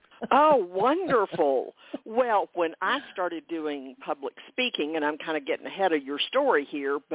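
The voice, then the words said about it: Southern US accent. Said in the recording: “I grew up in the South, so your accent's very comforting to me. It feels like a home.”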